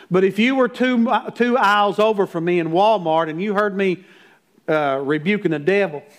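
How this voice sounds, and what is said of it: Slight mountain twang. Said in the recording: “I'm a mountain boy. I got that little twang to throw in there with it.”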